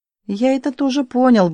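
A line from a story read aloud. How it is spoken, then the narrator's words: Curt mutter. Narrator (Russian): буркнул Видок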